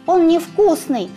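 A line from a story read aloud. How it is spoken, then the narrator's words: Shouting. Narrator (Russian): крикнула она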